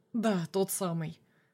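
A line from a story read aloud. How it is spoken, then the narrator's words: Snorting. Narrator (Russian): хмыкнул я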